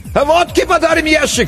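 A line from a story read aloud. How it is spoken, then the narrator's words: Distant shout. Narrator (Russian): крикнули оттуда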